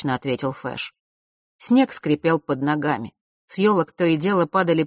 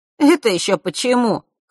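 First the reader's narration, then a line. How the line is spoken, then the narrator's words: Snorted. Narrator (Russian): хмыкнул Ник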